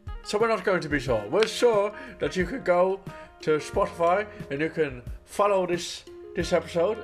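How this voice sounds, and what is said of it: Put-on Irish accent. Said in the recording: “how bad my Irish accent is”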